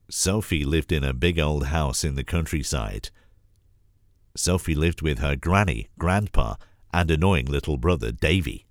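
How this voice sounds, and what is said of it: Deeper, rougher voice from a cold. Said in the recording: “apologies for the voice. I've got a bit of a cold, bit of the man flu. So my voice is a little bit more butch and deeper than normal.”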